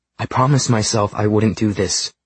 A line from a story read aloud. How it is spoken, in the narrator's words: she said fiercely